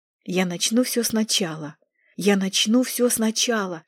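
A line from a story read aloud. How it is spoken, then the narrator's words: Whisper. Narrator (Russian): шептала Нинель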